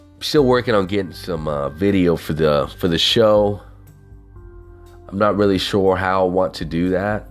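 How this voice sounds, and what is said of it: Southern twang accent. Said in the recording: “I'm that motherfucker with the $1 million voice. It's that hobo with a Southern twang”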